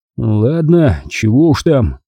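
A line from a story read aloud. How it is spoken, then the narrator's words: Gruff muttering. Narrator (Russian): буркнул я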